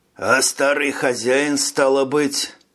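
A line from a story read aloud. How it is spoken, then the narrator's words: Neighbor's sigh. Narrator (Russian): сосед вздохнул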